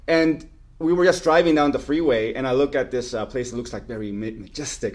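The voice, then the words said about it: Mixed Mexican and French accent. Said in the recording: “my accent's kind of like Mexican and French. ... A little Frenchy. ... Fused together. Frenchican. I tell people I have a Frenchican accent.”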